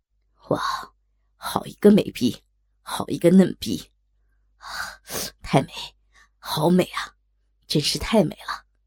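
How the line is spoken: Admiring exclamation. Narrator (Chinese): 方生禁不住赞叹

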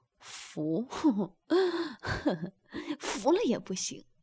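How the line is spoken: Man laughing. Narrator (Chinese): 男的笑道

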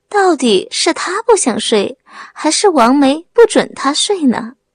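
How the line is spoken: Wry bitter laugh. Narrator (Chinese): 刘波苦笑

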